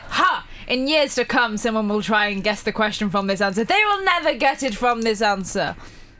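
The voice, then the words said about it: Evil-sounding put-on German accent. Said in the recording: “What was with the accent? ... all of a sudden evil and semi-German? ... It started to sound German.”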